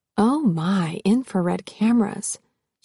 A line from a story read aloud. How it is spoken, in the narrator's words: said in a low voice